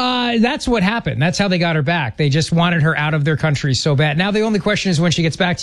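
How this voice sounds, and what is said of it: Usual voice. Nothing is said of it.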